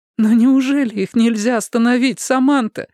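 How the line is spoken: Pleading. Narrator (Russian): взмолилась Мэйвис

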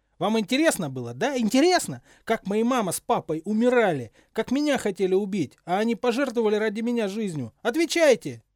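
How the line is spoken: Yelled. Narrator (Russian): заорал Поттер

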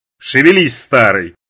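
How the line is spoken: Thundering. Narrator (Russian): прогремела Марла

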